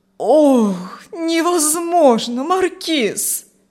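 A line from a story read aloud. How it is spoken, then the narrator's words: Old man groaning. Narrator (Russian): застонал старик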